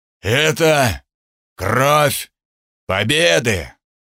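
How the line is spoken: Breathless wheeze. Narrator (Russian): Тудор задыхающимся голосом прохрипел

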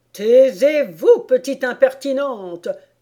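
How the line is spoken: Furious roar. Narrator (French): rugit la reine en devenant cramoisie de colère

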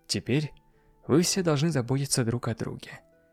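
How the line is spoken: Sad. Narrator (Russian): печально продолжила

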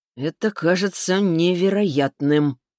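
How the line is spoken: Mumbling. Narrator (Russian): промямлил Виктор

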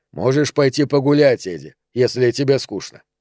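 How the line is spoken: Pointedly calm. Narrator (Russian): сказал Романа подчеркнуто спокойно

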